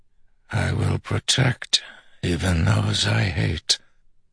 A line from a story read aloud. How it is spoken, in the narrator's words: Kaladin whispered through bloody lips